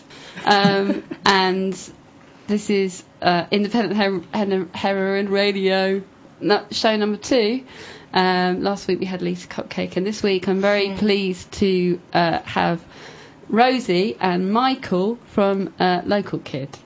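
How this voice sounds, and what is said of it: Croaky voice. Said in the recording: “I've got quite a croaky voice”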